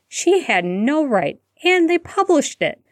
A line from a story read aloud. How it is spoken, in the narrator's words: Hermione exclaimed in disbelief